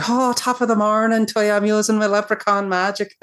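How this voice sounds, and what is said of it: Exaggerated leprechaun-style Irish accent. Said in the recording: “a terrible Irish accent. He sounds like an effing leprechaun ... it was not a grounded Irish accent”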